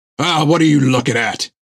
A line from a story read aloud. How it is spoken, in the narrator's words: bellowed Jack at the crew